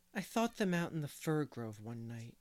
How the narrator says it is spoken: he said dreamily

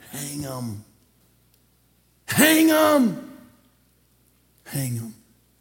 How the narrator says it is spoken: a very vindictive crowd shouted back

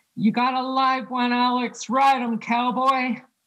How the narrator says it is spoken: a man in the bar started to hoot and holler

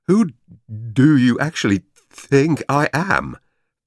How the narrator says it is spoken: Van Doren asked, stammering more than usual in his annoyance

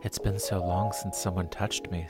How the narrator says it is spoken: Selena whispered

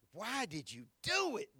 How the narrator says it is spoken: They groaned

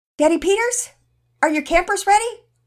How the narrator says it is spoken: Mama Peters yelled out

